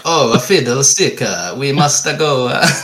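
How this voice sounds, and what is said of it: Bad put-on Italian accent. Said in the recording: “it sounds like a bad Italian impression.”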